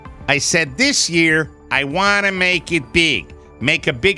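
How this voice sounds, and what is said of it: Put-on Chicago accent. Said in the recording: “I don't know why I'm making him Chicago, but it's a funnier dialect.”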